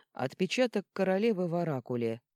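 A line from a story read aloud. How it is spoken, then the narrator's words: Dry. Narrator (Russian): сухо сообщил Меркл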